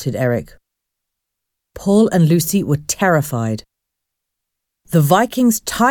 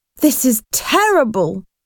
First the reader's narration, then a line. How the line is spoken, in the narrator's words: cried Lucy